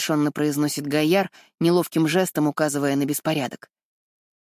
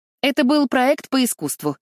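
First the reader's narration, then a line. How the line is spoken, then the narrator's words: Too loud. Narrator (Russian): слишком громко говорит она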